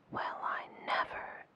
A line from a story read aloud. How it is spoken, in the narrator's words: exclaimed the fairy